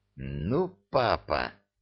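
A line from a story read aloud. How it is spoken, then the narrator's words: Hissing. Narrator (Russian): зашипела Жасмин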